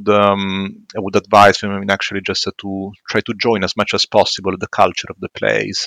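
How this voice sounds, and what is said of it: Strong Italian accent. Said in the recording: “speaking with uh, a very strong Italian accent”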